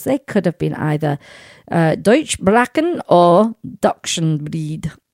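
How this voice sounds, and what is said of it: Put-on accent. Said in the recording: “You like my accent?”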